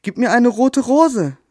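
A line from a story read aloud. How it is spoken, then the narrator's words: Calling out. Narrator (German): rief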